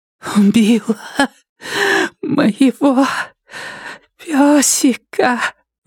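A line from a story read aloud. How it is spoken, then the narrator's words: Breathed out. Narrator (Russian): выдохнула Нетти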